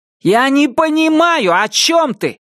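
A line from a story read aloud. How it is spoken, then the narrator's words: Shouted reply. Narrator (Russian): крикнул в ответ Джордж Т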